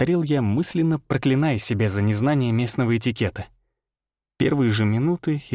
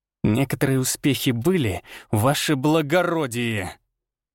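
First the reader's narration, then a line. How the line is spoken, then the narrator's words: Almost furious hiss. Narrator (Russian): Чуть ли не с яростью прошипел Арий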